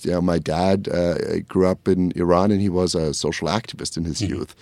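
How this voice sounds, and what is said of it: German accent. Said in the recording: “as you can hear from my accent, I grew up in Germany”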